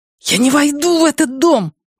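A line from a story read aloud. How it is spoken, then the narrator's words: Hissed. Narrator (Russian): прошипел Лео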